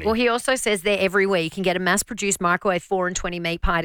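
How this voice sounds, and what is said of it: Broad Australian accent. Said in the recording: “Americans must think we sound so bogan ... I try and soften my accent in America”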